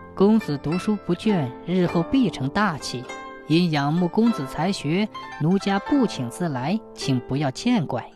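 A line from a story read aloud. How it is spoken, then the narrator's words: Soft smiling woman. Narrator (Chinese): 青衣女子莞尔一笑，柔声说道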